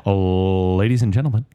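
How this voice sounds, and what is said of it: Announcer-style DJ voice. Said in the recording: “do the DJ voice? ... That sounded like you were like a captain of an airplane.”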